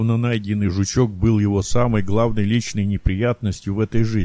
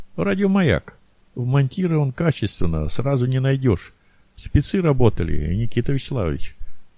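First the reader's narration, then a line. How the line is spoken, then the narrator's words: Sighing. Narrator (Russian): он вздохнул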